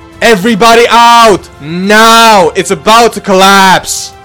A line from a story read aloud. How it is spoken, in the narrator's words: firefighters yelling from afar